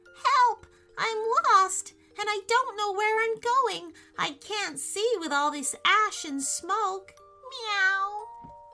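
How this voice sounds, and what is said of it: Small creature's little voice. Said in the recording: “said in a little voice”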